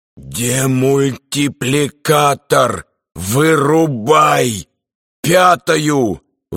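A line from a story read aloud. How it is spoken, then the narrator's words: Strained, nearly fainting. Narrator (Russian): Выдавил из себя Берестин, понимая, что вот-вот потеряет сознание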